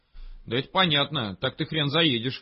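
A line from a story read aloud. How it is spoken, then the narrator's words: Scoffing snort. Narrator (Russian): хмыкнул он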